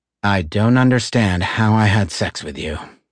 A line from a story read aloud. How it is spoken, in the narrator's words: she said with a sigh